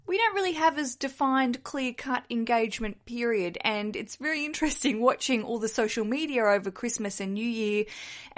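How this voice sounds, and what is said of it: Australian accent. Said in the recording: “I'm an Aussie, if you can hear from my accent, down south in Australia”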